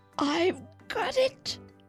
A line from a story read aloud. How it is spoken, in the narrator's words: yelled